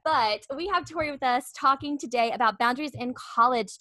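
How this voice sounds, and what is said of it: Smooth radio-style voice. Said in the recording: “has a very radio voice. ... Hey, you sound really good.”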